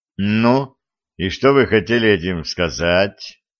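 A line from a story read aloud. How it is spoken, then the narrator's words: Bored tone. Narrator (Russian): Скучающим тоном поинтересовался Виталий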